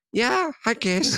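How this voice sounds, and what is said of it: Imitates another person's funny voice. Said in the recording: “this funny voice he has”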